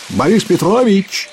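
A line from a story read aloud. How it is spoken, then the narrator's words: Shout. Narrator (Russian): крикнул он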